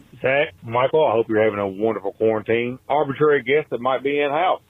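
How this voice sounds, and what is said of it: Noticeable regional American accent. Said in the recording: “Love the accent.”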